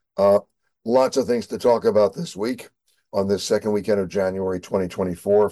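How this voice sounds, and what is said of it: Hoarse voice. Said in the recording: “I apologize for my hoarse voice”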